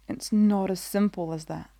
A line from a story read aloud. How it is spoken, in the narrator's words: Obi-Wan sighs